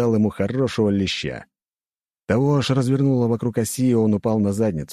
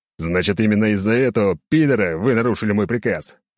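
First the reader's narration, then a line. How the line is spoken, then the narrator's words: Angry bark. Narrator (Russian): Рявкнул я на них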